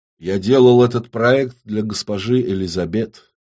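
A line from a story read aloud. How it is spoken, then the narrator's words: Quiet, nervous. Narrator (Russian): негромко сообщил Зиновий, нервно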